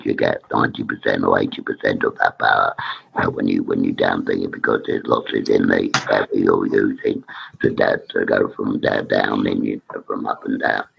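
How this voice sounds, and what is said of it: Strained, impaired voice. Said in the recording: “my voice is not good today”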